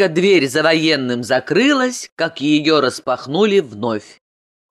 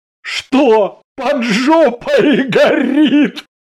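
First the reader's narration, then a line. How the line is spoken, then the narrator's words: Laughing loudly. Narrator (Russian): захохотал Ганин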